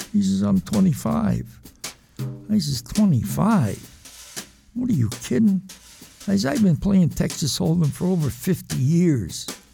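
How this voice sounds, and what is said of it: New England accent. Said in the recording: “You can tell from his accent he's a New Englander through and through.”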